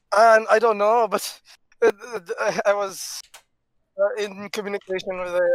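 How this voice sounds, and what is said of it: Usual voice. Nothing is said of it.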